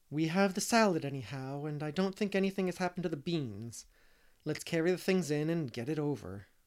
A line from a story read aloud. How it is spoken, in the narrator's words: said Anne, sobering down again with a sigh of recollection